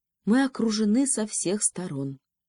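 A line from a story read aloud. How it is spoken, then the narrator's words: Sad sigh. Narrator (Russian): печально вздохнул министр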